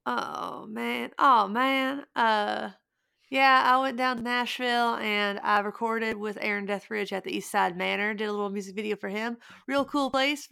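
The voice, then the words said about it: Put-on Southern American accent. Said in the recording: “You got to say it in a Southern accent.”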